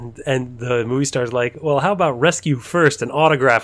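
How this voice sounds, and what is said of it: Usual voice. Nothing is said of it.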